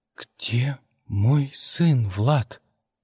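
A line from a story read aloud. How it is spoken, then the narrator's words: Quiet question. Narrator (Russian): тихо спросила Мия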